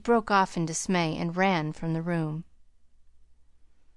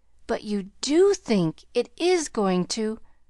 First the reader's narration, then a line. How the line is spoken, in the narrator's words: she cried joyously